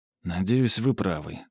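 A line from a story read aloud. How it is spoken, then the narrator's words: Sigh. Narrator (Russian): вздохнул Флип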